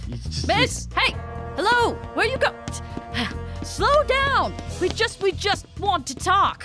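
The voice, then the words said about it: Yelling. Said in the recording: “I'm yelling.”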